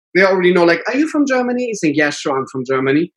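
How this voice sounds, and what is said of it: German accent. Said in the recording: “I am clearly from Germany. I think everybody can hear this”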